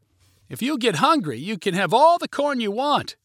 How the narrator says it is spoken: yelled Gabby

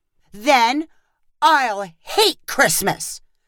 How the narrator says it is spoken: cried Lincoln dramatically

